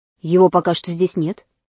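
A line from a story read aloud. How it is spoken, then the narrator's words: Calm. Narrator (Russian): Дагни ответила спокойно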